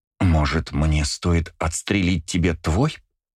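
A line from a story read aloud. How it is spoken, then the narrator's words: Angry words through teeth. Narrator (Russian): Зло процедила желтокожая девушка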